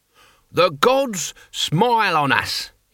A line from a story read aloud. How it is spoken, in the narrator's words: he bellowed